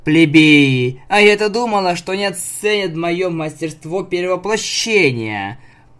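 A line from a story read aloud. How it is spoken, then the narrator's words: Grumbling. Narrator (Russian): проворчала Nightmare Moon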